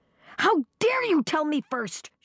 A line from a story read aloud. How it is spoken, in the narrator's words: she shrieked